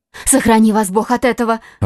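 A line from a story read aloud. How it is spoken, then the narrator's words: Alarmed young woman's exclamation. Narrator (Russian): воскликнула молодая женщина, и в голосе ее прозвучала такая тревога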